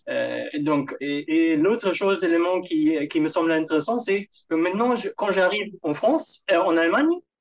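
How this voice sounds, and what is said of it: German accent speaking French. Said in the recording (French): “je peux pas masquer mon, mon accent allemand”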